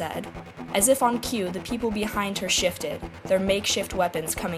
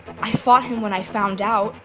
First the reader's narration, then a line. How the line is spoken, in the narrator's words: insisted desperately